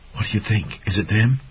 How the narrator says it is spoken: mouse-like creature began chattering in a shrill voice

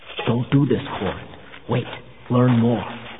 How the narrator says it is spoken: saying in a low voice

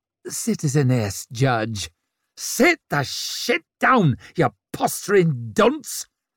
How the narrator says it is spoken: she snarled back at him

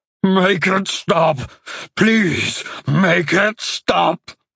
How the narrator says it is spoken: cried out with a voice that sounded like rocks being rubbed together

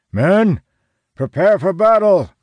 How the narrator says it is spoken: he shouts

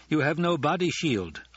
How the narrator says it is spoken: Idaho said

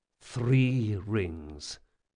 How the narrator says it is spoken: Jean muttered

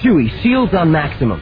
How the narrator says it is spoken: Han snapped

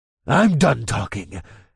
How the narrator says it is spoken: snarled

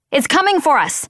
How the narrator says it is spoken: shouted

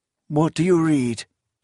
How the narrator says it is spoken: asked hoarsely

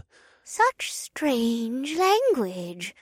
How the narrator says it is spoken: Livia murmured

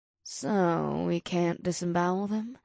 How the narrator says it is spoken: Ada grumbled

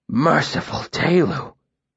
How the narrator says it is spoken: he said breathlessly

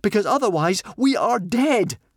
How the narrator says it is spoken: gasped Fishlegs

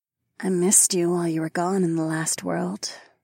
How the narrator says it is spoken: Fila purred

